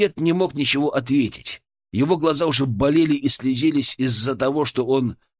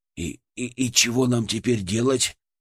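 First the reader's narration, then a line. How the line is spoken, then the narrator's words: Quiet question. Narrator (Russian): тихо спросил Глыба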